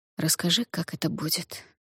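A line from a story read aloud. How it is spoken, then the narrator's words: Gentle request. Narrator (Russian): мягко попросил Дудзиян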